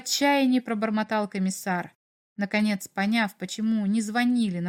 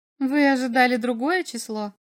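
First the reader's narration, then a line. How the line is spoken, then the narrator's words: Mocking question. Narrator (Russian): спросила она насмешливо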